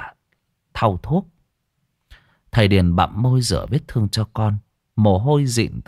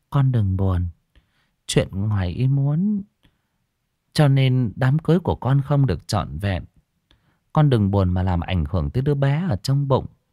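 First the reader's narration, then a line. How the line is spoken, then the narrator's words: Soft gentle woman. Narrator (Vietnamese): Bà nhỏ nhẹ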